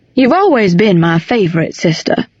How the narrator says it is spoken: Thomas said

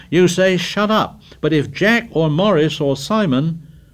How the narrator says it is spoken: cried Piggy with bitter realism

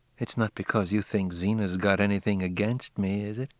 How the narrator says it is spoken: she said in a low tone

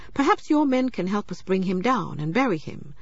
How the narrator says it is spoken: said Obiorika

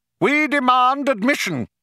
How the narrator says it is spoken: shouted the younger of the two men

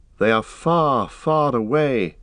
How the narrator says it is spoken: he said sadly

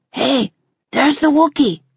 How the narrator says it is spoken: I'd probably whisper to them

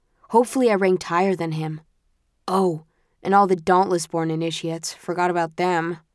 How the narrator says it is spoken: groans

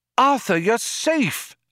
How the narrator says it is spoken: a voice cried

